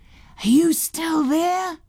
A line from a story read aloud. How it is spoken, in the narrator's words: He said in a loud whisper